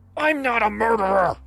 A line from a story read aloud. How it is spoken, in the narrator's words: He screamed in my face